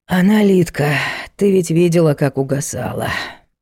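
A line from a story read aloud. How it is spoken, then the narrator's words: Sighing. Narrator (Russian): вздохнул Егор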